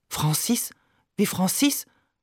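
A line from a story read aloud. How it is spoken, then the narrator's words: Murmured. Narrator (German): murmelt sie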